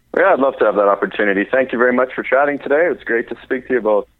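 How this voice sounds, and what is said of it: Canadian accent. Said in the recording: “We know you're Canadian because of the oat ... I love Canadian accent. That sounds great.”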